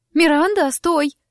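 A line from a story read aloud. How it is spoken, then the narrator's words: Sharp alarmed cry. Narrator (Russian): вскрикнула Лима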